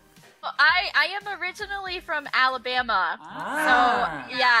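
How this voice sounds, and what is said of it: Usual voice. Nothing is said of it.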